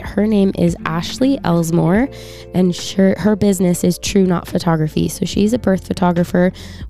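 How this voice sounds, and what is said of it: Slightly scratchy, recovering voice. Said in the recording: “lost my voice ... This sickness that is going around ... you can probably still hear that it's a little bit scratchy”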